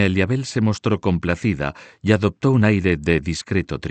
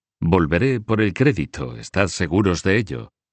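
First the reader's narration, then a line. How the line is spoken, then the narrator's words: Forced jovial voice. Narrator (Spanish): dijo con una voz jovial con la que pretendía disimular sus sentimientos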